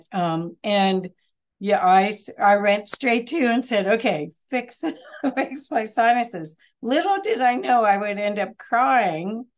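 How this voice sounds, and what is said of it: Congested, nasal-sounding voice. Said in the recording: “I've had trouble with my sinuses, and you can kind of hear my funny voice from it”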